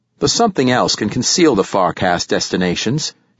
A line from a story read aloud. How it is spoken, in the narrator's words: said